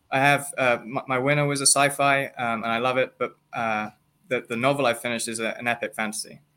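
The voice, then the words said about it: Speaks English with a noticeable accent. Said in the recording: “I think maybe my accent threw it off ... we both have accents, so I'm used to listening to people with accents”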